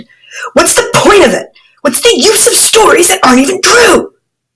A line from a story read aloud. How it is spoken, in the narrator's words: When he heard his father sounding so pathetic, Harun lost his temper and shouted